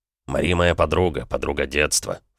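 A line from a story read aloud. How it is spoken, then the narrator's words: Snort. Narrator (Russian): фыркнул он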